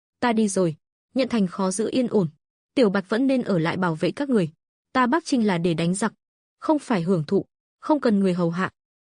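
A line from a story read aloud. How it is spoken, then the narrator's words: Smiling. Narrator (Vietnamese): Lộ Thần mỉm cười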